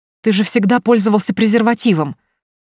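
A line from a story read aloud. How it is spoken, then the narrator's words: Reproachful shout. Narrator (Russian): с укором прокричала она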